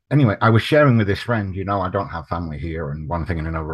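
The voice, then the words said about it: Non-American foreign accent. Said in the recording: “I'm not from the United States, as you can probably tell by my accent”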